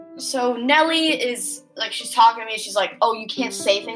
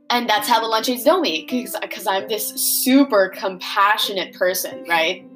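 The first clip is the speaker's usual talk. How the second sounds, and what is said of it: Sarcastic tone. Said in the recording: “That was sarcastically if you didn't catch it.”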